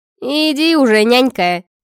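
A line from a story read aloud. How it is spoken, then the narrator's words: Dismissive snort. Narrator (Russian): фыркнула Арчанка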